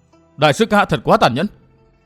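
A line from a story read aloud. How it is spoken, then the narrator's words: Angry, tearful. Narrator (Vietnamese): mắt ngậm lệ tức giận nói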